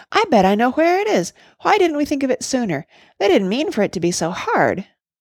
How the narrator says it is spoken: cried Oliver suddenly

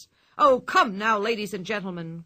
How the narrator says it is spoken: cried the ringmaster

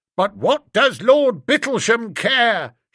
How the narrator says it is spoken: shouted Bingo

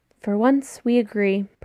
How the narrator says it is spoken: Percy sighs longingly

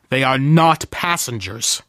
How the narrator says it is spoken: I snapped

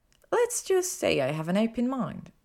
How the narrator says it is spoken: she smiled sweetly

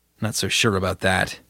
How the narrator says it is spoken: Judith mumbled

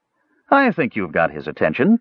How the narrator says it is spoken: Tanis said dryly

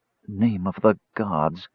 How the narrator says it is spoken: Tanis breathed, recognizing him at last

